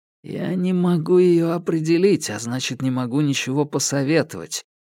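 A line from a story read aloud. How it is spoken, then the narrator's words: Whisper. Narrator (Russian): прошептал фрикмейстеру его Доппель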